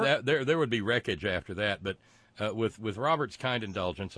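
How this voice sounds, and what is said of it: Usual voice. Nothing is said of it.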